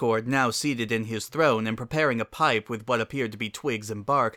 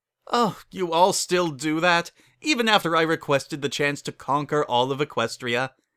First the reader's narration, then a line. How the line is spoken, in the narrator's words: his laughter continued to grow